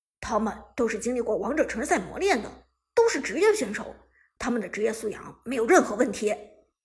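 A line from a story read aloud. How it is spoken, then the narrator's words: Anxious, deep voice. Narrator (Chinese): 韩小军一听就急了，沉声说道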